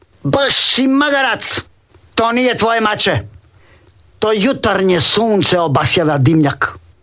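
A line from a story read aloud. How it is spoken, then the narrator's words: Woman shouting. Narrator (Croatian): Žena vikne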